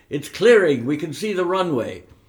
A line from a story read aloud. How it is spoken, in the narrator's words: a voice exclaimed excitedly